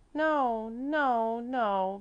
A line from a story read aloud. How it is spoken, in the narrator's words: Mäzli moaned again in such sorrowful tones as no one had ever heard from the energetic little child